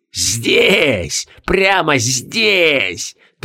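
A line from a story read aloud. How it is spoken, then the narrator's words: Triumphant ghostly laughter. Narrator (Russian): Торжествующе захохотали призраки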